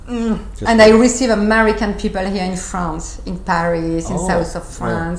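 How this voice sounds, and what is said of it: Nice American accent. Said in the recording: “That's why you have that nice American accent.”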